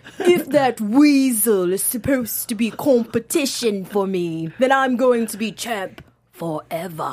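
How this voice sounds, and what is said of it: Imitates another person's voice. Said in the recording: “I'm trying to do the accent. ... That's like the worst impression ever. ... You just did an impression of Neville doing his impression of Enzo.”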